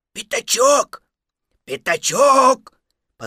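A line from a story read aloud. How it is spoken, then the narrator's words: Loud whisper calling. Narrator (Russian): позвал Пух громким шепотом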